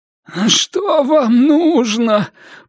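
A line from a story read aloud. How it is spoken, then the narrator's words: Moaning. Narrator (Russian): простонал Ричардсон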